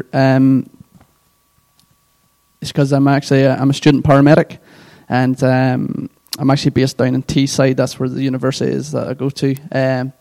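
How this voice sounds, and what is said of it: Northern Irish accent. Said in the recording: “my accent is from Northern Ireland”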